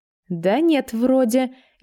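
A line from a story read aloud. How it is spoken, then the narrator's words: Even more uncertain. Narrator (Russian): еще более неуверенно ответила я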